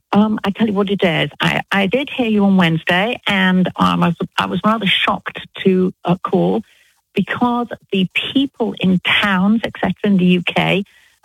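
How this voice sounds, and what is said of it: British English accent. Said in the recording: “you don't sound like you're from Alabama ... I'm British ... British accent ... I love her accent ... I love a English accent”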